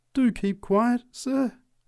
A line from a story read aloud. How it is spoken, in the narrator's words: pleaded the preacher